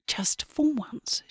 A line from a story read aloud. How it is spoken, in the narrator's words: whispers